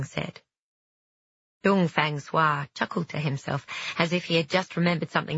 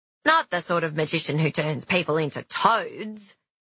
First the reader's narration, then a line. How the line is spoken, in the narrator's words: he laughed